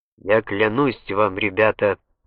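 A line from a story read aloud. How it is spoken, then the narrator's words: Solemn vow. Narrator (Russian): произнес он так торжественно, как только мог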